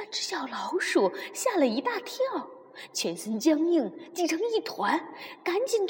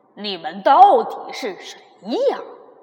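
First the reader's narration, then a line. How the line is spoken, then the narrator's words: Loud asking. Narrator (Chinese): 猫打开嗓门，又大声的问了一次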